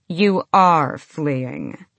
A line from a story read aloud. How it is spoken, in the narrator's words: Adian drawled